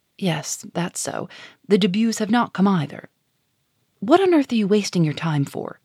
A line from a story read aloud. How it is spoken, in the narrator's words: added sharply, raising her voice